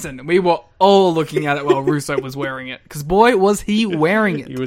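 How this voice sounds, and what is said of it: Usual voice. Nothing is said of it.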